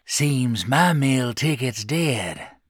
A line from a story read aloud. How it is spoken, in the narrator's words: Bly wheezed